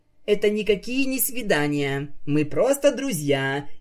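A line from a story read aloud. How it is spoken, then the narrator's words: Overly loud, fake laugh. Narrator (Russian): излишне громко возразила единорожка и фальшиво рассмеялась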